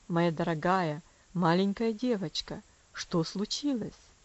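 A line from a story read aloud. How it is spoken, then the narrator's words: Gentle, sympathetic, kind voice. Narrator (Russian): спросил он, наконец, ласковым голосом, полным сочувствия и доброты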